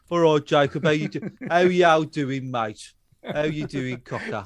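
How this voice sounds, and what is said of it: Put-on Black Country accent. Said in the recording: “That's how my shepherd speaks with a black country.”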